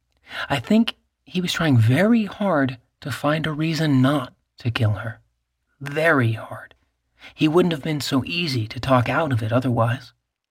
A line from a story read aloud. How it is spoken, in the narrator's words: Anna said quietly